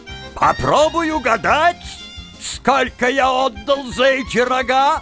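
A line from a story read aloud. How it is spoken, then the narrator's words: Blaring yet unsure. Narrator (Russian): Он орал, как труба, но в голосе его была неуверенность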